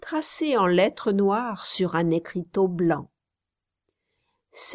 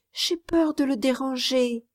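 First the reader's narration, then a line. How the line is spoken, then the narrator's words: Child speaking timidly. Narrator (French): dit timidement l'enfant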